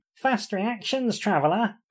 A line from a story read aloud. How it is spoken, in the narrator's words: called the foremost of the bandits cheerfully